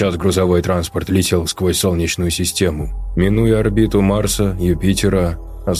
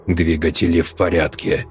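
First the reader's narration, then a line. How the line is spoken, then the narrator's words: Mechanical clipped voice. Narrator (Russian): механическим голосом отчеканил бортовой самописец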